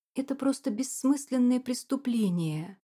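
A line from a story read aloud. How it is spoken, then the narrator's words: Hoarse indignant exclamation. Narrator (Russian): воскликнула Дилис, голос которой был хриплым не только от возмущения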